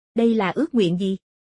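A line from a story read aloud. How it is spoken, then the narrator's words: Old beggar laughing. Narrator (Vietnamese): Lão ăn mày bật cười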